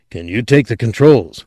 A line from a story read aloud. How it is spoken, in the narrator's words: Anderton asked, his voice urgent